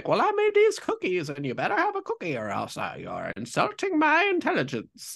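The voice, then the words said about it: Put-on grandma leprechaun-like accent. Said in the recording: “I like your grandma accent ... I don't really know what accent that was ... You sound like a leprechaun.”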